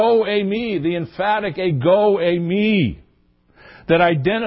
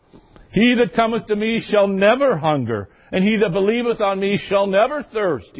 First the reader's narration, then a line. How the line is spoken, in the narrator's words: he said